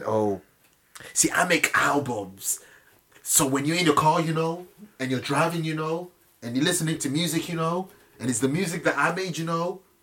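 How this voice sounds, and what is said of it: Imitates another person's voice. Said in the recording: “This is a perfect impersonation ... Word for word ... he said it just like that”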